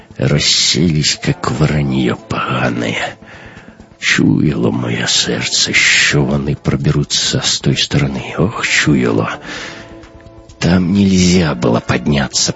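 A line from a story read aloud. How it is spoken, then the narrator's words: Captain groaning. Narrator (Russian): простонал капитан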